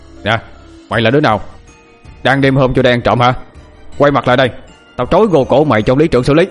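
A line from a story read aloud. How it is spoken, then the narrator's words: Shouted. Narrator (Vietnamese): Hắn quát lên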